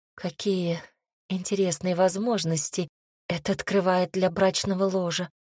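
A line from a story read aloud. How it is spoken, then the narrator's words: Shameless whisper. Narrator (Russian): прошептала бесстыжая я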